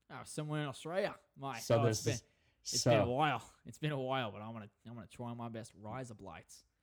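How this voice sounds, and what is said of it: Put-on Australian accent. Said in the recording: “I wish I could do an accent that well, but you're gonna hold that accent”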